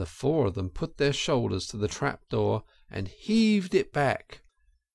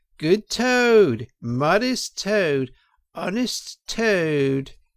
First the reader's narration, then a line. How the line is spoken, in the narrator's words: shrieks of merriment